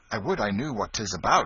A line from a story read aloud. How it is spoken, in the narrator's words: exclaimed, with all a boy's curiosity in such happenings